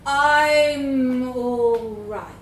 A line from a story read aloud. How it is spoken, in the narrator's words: he said slowly